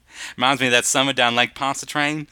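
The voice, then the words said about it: Put-on Southern drawl. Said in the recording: “I'm going to keep on the Southern drawl. It's fun.”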